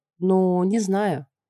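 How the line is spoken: Capricious drawl. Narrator (Russian): протянула я в лучших традициях капризных фраляйн

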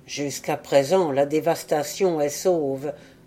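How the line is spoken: Murmur. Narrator (French): murmura Oural

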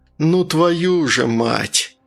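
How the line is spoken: Groaning. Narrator (Russian): простонал Артур

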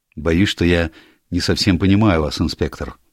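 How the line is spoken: Plain. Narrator (Russian): ответил юрист

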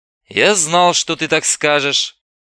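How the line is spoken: Slightly tired. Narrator (Russian): чуть устало произнес Остапенко

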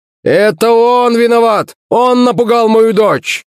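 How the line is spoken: Shouting. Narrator (Russian): Закричал этот гад

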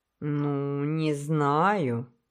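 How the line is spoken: Thoughtful mutter. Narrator (Russian): пробормотал капитан Джим задумчиво

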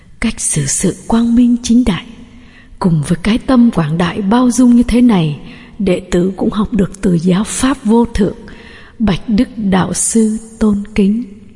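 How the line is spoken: Satisfied silent inner murmur. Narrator (Vietnamese): Đức vua Bimbisara mỉm cười hài lòng, nói nhỏ trong tâm rằng

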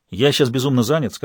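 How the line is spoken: Plain. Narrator (Russian): сказал Фирст

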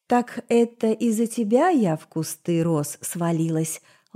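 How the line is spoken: Sweet inquiry. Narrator (Russian): ласково осведомилась суккуба

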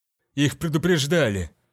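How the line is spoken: Grumbled. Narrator (Russian): проворчал Арч

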